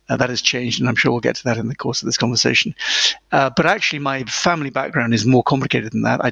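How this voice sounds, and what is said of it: British accent. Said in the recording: “you can tell from my accent that I am British”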